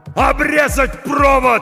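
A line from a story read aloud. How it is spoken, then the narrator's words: Shout. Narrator (Russian): закричал Хо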